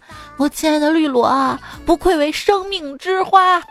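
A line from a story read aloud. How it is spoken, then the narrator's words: Sulky, resigned sigh. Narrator (Chinese): 只好悻悻的感叹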